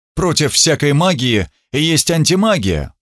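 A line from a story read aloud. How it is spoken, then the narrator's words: Grumbling. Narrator (Russian): проворчал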